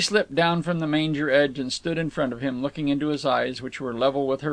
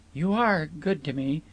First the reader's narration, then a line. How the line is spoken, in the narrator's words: half-whispered